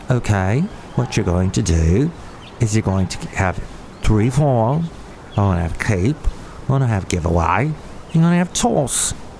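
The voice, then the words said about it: Put-on Australian accent. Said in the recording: “that Australian guy saying ... I guess I'll toss that Australian accent.”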